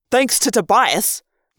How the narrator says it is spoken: Jake snapped

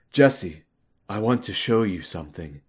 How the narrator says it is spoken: he said quietly

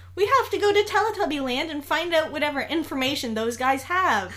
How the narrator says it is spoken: yelled Niall

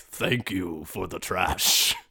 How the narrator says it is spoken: a booming voice says

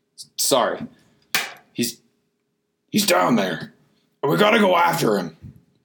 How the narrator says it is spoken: Locklear said in a serious tone

